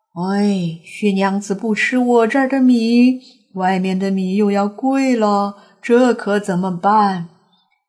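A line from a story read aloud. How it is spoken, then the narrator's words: Two voices sighing. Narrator (Chinese): 两个声音唉声叹气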